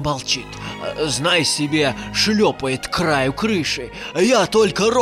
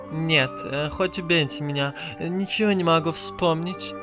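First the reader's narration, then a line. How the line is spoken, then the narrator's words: Whining. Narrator (Russian): заскулила Кикимора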